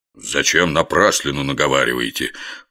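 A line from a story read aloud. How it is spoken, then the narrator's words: Grumbled mutter. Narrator (Russian): буркнул Горох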